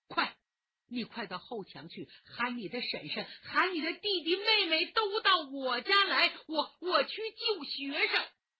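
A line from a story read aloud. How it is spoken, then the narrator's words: Loud command. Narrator (Chinese): 大声吩咐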